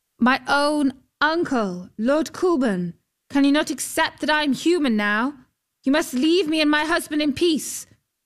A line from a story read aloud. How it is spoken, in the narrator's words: called out